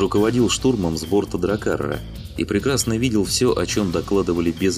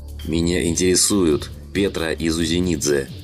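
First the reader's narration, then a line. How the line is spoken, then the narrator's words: Growling. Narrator (Russian): прорычал Слановский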